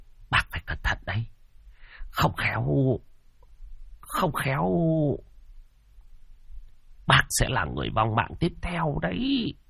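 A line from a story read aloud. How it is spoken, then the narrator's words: Trembling voice. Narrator (Vietnamese): Giọng của Tam Quỷ run run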